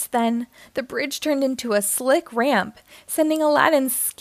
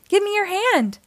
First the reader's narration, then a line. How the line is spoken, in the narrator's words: Aladdin cried out